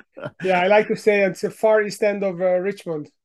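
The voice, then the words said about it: Hungarian accent. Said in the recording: “my accent gives me away, so I moved here ten years ago from Hungary in Central Europe”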